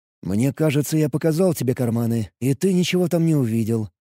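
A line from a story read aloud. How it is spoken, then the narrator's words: Quiet but confident. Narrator (Russian): произнес я тихо, но уверенно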